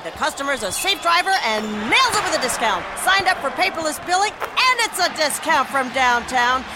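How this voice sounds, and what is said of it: Excited play-by-play sports announcer voice. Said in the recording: “this is my impression of a play-by-play announcer who loves to save money”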